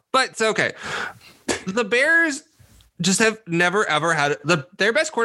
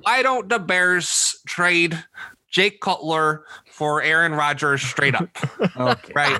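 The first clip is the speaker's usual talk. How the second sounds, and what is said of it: Put-on Chicago accent. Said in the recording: “that voice ... That was my Chicago person ... it was a pretty good Chicago accent ... It was all right.”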